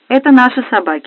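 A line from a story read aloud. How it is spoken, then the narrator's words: Quickly. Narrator (Russian): быстро сказала я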